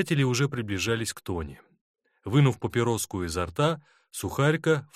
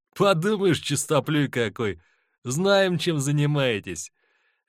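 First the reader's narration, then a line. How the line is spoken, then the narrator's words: Mocking. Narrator (Russian): бросил насмешливо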